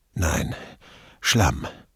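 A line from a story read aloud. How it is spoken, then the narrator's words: Panting answer. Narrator (German): Immer noch keuchend antwortete Casati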